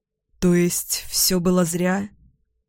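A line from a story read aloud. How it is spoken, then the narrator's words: Dejected question. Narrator (Russian): Спрашиваю упавшим голосом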